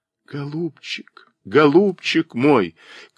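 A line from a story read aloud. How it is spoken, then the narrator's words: Sobbing cry. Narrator (Russian): крикнула она вдруг рыдающим голосом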